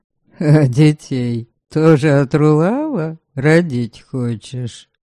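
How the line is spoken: Unseen guest laughing. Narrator (Russian): Невидимый гость засмеялся

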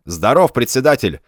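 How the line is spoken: Barking newcomer. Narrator (Russian): гаркнул новоприбывший

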